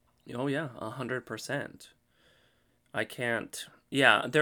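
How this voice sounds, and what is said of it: Usual voice. Nothing is said of it.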